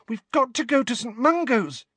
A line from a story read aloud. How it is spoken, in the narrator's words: said Ginny urgently